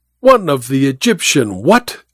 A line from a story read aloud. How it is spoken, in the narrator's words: exclaimed the mummy